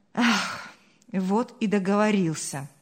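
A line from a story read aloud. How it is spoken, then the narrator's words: Sighing. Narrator (Russian): вздохнул Павел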